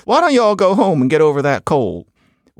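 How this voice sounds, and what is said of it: Put-on Southern US accent. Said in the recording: “I'm sorry that I'm doing this Southern accent, but it's the best I can do.”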